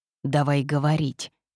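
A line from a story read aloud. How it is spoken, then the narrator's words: Growled in the face. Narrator (Russian): Прорычали мне прямо в лицо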